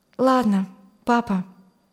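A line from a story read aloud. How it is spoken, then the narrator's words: Calm. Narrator (Russian): сказала она спокойно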